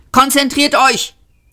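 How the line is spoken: Hissed. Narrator (German): zischte Seyfort

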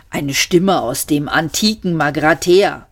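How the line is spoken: Calling out. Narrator (German): rief Seyfert

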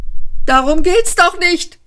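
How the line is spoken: Angry shriek. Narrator (German): kreischte Ford wütend

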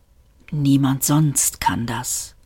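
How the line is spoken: Whispering. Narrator (German): flüsterte Seyfert

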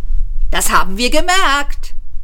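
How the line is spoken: Called out. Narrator (German): rief Ford

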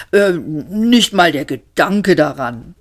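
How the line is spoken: Growled. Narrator (German): knurrte Mr

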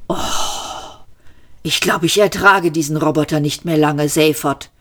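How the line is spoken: Groan. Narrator (German): stöhnte Trillian

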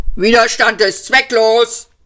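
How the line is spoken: Guard barking. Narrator (German): bellte der Posten

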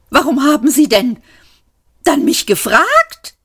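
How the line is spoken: Shrieked. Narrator (German): kreischte es

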